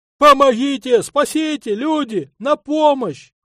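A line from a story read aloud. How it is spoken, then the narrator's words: Brief male shouting. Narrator (Russian): Он кричал недолго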